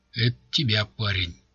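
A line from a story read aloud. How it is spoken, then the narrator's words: Guard's whisper. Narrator (Russian): шепнул охранник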